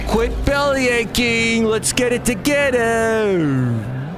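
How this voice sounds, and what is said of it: Put-on East Coast American accent. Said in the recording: “my wonderful East Coast accent, which shows you I have, like, never been to the East Coast”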